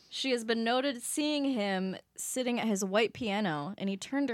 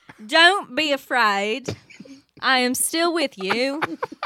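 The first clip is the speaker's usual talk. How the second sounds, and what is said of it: Put-on British accent. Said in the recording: “Can we hear that again in a British accent, though? ... That's perfect. That's exactly what I wanted.”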